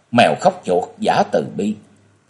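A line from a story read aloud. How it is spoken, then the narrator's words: Cold scornful snort. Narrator (Vietnamese): Thiếu nữ áo vàng lạnh lùng khẽ cười, rồi hừ ở giọng mũi nói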